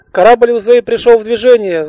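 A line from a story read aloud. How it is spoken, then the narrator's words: Shouted. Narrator (Russian): выкрикнула Алиса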